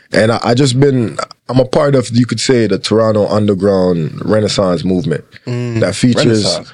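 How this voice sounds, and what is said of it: Jamaican accent. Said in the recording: “I'm Jamaican born, Canadian raised to some extent ... I know I talk with a Jamaican accent”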